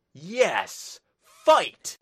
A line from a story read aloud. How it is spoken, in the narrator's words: roared the Swede